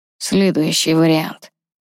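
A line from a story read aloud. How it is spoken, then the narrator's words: Through gritted teeth. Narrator (Russian): процедил Ронан сквозь зубы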